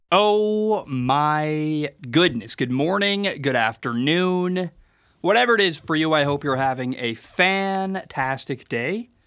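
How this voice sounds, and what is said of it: Sick, congested voice. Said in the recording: “I am very sick... I believe it's a sinus infection... If my voice sounds kind of weird, that's why”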